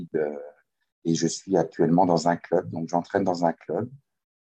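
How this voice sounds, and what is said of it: Slight Québécois French accent. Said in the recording (French): “mon accent est teinté d'un peu de québécois... C'est léger... tu as, as, pris un petit peu l'accent québécois”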